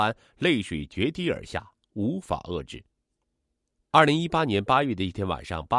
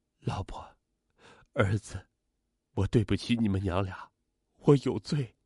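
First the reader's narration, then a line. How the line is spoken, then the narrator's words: Choked with sobs. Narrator (Chinese): 他哽咽着说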